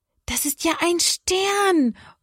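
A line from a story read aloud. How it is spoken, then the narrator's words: Call. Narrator (German): ruft Johanna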